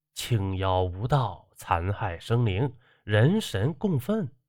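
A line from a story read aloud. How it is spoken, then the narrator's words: Low voice. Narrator (Chinese): 这黑衣人低声说道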